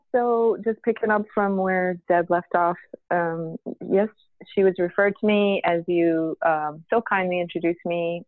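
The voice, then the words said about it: Hoarse voice. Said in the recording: “I am a little under the weather. So I apologize for the hoarse voice.”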